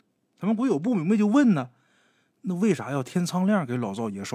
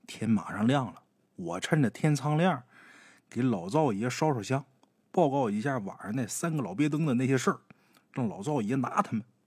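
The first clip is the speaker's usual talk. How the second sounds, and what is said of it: Quiet, hushed voice. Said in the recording (Chinese): “他妈这时候小声说”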